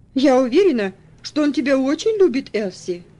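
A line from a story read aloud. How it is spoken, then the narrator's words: Conciliatory tone. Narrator (Russian): вступила в разговор Каролина примирительным тоном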